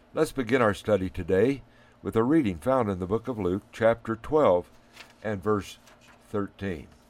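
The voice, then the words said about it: Hoarse voice from a cold. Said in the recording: “I'm suffering from a cold this morning. ... My voice isn't what it should be”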